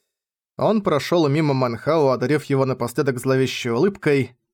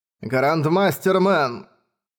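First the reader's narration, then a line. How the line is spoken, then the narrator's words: Cold. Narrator (Russian): холодно сказал драгонар седьмого ранга Мо Цзы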